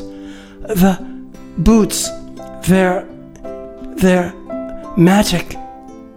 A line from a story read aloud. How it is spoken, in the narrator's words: He gasped in a halting voice